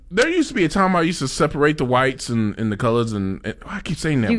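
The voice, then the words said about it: Speaks with a noticeable accent. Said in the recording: “My accent.”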